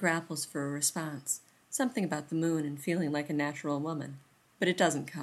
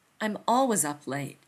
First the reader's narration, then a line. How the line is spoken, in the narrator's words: Rodney says impatiently